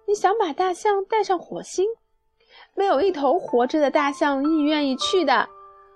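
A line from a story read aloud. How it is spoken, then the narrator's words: Loud laughter. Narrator (Chinese): 多米诺大笑起来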